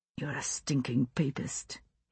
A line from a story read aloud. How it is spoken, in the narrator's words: he whispered, and caught his breath on something that might have been a sob